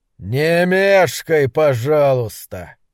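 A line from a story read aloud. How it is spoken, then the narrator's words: Growl. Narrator (Russian): прорычал он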